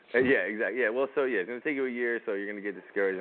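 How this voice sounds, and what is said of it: Slight New York East Coast accent. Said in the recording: “He did say he was from New Jersey, though, right? Because you could tell a little bit of ... New York, ... the New East Coast say, accent, ... East, East Coast, East Coast accent.”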